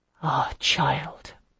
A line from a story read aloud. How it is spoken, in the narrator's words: her voice whispered at my ear